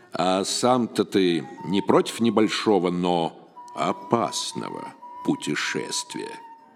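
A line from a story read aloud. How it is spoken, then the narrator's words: Deep old man's voice, close. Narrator (Russian): пробасил дед над ухом Феди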